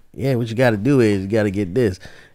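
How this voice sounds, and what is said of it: Imitates an old Black man's voice. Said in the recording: “I sound like an old black dude who's like”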